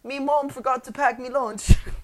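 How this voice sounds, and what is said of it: Bad put-on British accent. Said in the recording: “one of the more awful British accents I've ever heard attempted”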